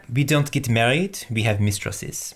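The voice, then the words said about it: Put-on French accent. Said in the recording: “do a French accent.”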